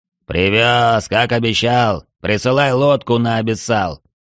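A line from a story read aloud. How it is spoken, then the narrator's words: Dignified booming. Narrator (Russian): с достоинством прогудел Цверк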